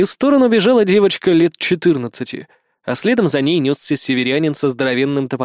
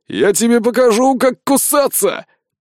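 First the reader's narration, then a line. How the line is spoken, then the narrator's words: Roared. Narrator (Russian): проревел северянин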